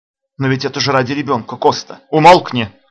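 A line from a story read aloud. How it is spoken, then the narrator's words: Exclamation. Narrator (Russian): воскликнул хозяин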